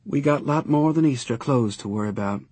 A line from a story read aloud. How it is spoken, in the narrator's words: more wearily